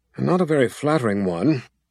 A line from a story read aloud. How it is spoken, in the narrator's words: Zed grumbled